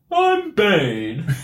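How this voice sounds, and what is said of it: Bane character voice impression. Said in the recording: “I think you should give us a Bane impression. ... I'll do my best Bane impression. ... that's pretty good”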